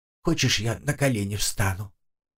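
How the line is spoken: Quiet ghostly voice. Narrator (Russian): тихо проговорил призрак

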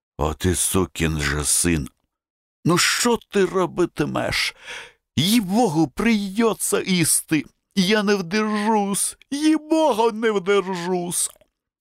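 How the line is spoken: Whispered. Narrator (Russian): Карабанов шептал

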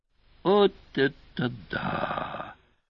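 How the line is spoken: Whispered exclamation. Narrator (Russian): шептом воскликнул Певер

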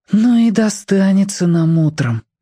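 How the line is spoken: Sighing. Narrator (Russian): вздохнул Тоник

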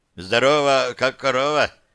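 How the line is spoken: Bearded man's snort. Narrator (Russian): хмыкнул бородач

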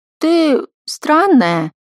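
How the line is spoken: Drawn-out drawl. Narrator (Russian): протянула она

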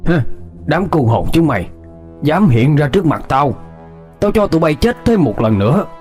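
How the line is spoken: Harsh growling. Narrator (Vietnamese): Thầy Năm gằn giọng

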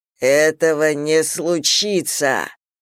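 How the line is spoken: Growled. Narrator (Russian): прорычал Зейн

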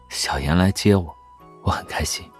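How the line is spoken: Soft voice. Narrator (Chinese): 他轻声说道

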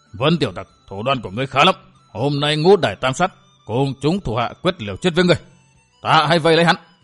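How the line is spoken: Low hiss, hidden fear. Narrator (Vietnamese): Đại sát Thạch Tiến Nhân gượng giấu vẻ kinh hoàng, hạ giọng quát

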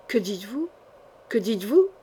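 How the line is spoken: Agitated stammering. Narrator (French): bégaya Jean sans peur, la tête en feu

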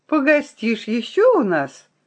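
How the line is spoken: Delighted question. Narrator (Russian): от удовольствия захлопала в ладоши и радостно спросила

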